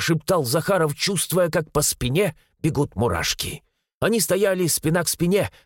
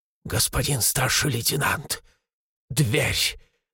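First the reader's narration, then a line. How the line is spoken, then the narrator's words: Trembling voice. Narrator (Russian): дрожащим голосом произнес Шестаков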